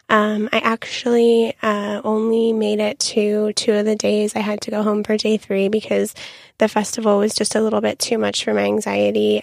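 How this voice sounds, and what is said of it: Extra raspy voice. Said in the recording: “my voice is extra raspy today since I went to Coachella this past weekend”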